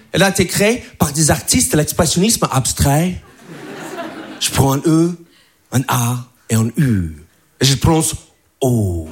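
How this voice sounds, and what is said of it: American accent speaking French. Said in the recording (French): “je suis pas français, je suis américain, donc je parle vraiment comme ça... C'est mon vrai accent. Je parle un peu comme le québécois”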